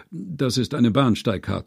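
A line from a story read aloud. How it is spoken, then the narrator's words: Calm. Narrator (German): sagte er ruhig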